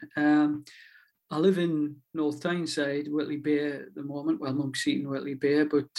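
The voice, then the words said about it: Toned-down Northumberland accent. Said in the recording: “I'm a Northumberland lad by birth. You can probably tell from my accent. I'm actually toning this down.”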